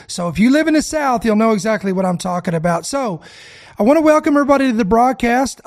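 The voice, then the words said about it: Raspy, congested voice. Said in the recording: “if I may sound a little raspy or congested, it's because the pollen has taken a beating on me”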